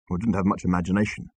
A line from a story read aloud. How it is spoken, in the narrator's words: muttered Arthur